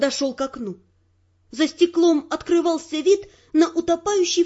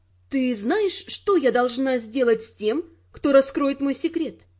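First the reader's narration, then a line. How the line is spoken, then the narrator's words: Calm question. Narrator (Russian): спокойно спросила я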